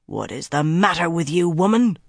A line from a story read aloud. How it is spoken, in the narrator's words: Bryn growled at Swan